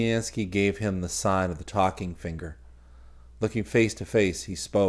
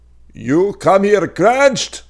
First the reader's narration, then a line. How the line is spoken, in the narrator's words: Parisiansky could not hear his own voice, so the words roared like the words on a broken and screeching phone